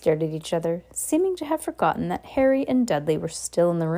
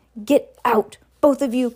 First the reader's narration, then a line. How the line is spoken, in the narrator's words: croaked Uncle Vernon